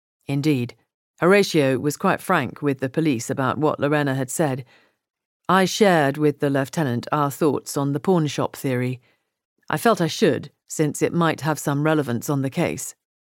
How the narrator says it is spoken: Matt said

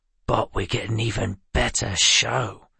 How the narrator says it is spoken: Doran whispered

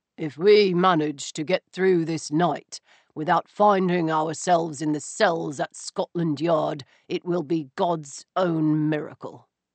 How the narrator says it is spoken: Stoker said through gritted teeth

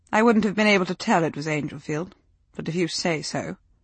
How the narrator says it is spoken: she said icily

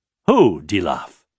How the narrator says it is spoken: Raythan asked sharply

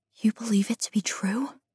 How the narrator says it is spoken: I whisper, not wanting to believe the palace able to contain such a large secret

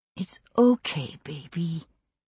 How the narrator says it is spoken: she whispered into Mandy's hair

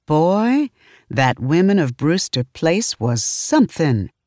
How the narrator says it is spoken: I exclaimed

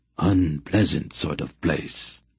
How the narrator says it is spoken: Hetar grumbled, dispiritedly

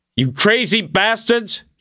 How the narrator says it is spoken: he yelled

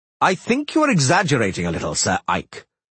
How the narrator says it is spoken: Dorigare said sharply

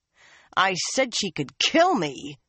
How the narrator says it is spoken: she snarled at it

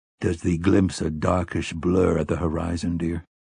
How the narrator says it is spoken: he murmured

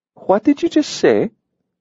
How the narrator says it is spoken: Olivia asked sweetly

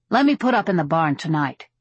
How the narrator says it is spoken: he said

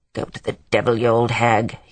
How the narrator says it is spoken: he half-muttered

